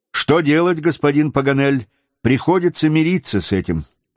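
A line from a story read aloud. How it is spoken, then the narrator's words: Plain. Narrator (Russian): ответил Джон Манглс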